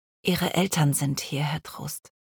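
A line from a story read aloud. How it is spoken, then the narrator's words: Quiet speech. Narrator (German): sagte sie leise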